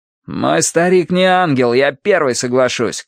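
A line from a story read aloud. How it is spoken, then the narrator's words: Shouting after someone. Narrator (Russian): крикнул ему в спину Плуто Ноук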